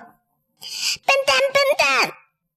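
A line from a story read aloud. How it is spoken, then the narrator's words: Loud squawking shout. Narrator (Chinese): 鹦鹉…大叫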